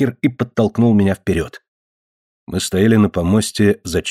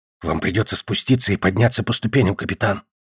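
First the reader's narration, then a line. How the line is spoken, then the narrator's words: Whisper. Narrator (Russian): прошептал он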